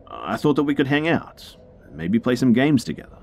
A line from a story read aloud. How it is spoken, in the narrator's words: he quickly followed up with